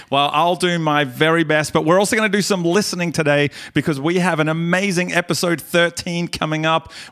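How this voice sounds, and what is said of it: Australian accent. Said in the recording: “lovely Australian accent”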